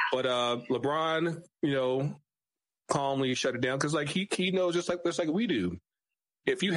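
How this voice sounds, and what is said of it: Usual voice. Nothing is said of it.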